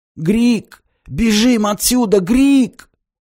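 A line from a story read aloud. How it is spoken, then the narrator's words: Frightened hoarse wheeze. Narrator (Russian): испуганно просипел Василий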